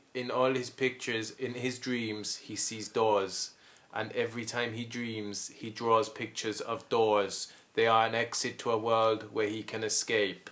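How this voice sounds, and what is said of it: Werner Herzog impression. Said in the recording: “Werner Herzog does his voiceover ... Really good impression.”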